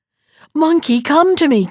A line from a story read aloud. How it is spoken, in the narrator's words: cried the ant